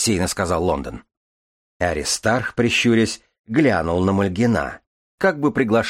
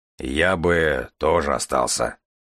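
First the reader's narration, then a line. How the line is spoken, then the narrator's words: Gloomy deep bass. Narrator (Russian): мрачно пробасил Аристарх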